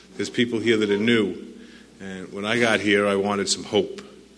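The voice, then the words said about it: New York accent. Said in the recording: “I know my accent's from New York”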